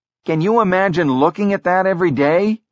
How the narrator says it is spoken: He shouted

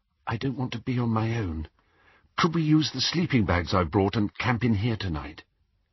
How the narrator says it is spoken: Faintly, he heard Hermione say

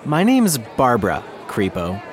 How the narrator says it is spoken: she replied

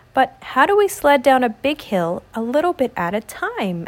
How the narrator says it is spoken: asked Daniel

